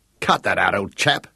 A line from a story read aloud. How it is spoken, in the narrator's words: he snapped